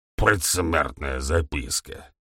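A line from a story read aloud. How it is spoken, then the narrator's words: Contemptuous. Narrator (Russian): презрительно произнес ГМ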